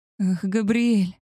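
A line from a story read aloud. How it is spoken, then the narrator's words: Moaning with pleasure. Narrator (Russian): Я застонала от такой ласки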